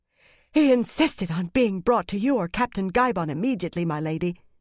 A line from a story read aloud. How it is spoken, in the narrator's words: Mistress Harfor said breathlessly